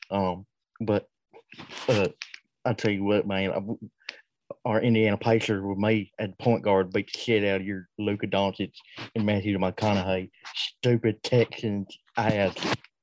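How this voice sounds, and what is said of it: Imitates another person's voice. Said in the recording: “Got a little bit of John Gruden... that Wheel of Impersonation”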